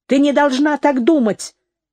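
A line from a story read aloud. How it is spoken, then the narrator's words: Shouted. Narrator (Russian): закричала на нее Нэнси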